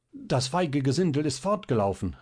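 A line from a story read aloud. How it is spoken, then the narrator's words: Composed calling out. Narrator (German): rief dieser, der sich rasch gesammelt hatte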